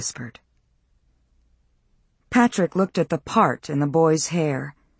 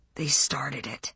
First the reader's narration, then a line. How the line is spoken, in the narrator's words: he whispered